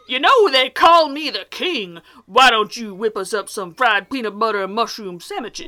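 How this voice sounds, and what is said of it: Exaggerated fat man character voice. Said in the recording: “That voice! I hate it when you do the fat man voice. Don't do the fat man with your mouth full.”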